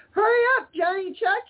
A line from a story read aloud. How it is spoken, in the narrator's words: he shouted